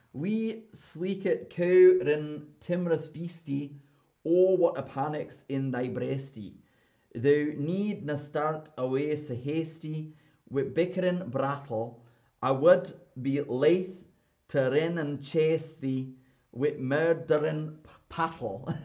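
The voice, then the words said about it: Deliberately poor put-on Scottish accent. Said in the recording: “my Scottish accent is terrible ... my awful Scottish accent”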